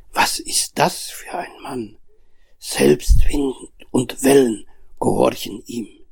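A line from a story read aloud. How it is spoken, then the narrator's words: Horrified whisper. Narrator (German): Voller Entsetzen flüsterten die Jünger einander zu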